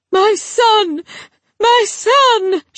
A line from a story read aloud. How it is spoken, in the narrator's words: she cried out, shrill and cracked